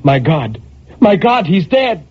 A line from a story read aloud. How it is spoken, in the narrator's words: a terror took hold of her, and she cried